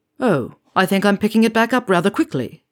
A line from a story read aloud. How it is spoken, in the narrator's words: Horace said